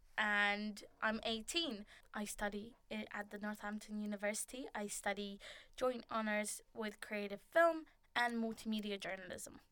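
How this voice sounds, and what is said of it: Lithuanian accent. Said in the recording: “if you're wondering where the accent is from... I'm Lithuanian”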